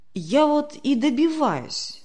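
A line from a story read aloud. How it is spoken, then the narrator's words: Completely calm. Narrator (Russian): продолжал Демьян Лукич совершенно спокойно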